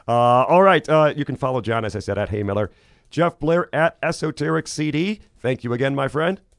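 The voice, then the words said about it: Voice sounds rough and unwell. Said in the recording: “my voice issues this week, getting over cold ... I hope to be sounding better next week”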